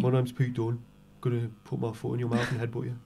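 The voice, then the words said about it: Bad put-on Birmingham accent. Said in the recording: “the worst accent of all the accents ... Born from Birmingham ... Birmingham”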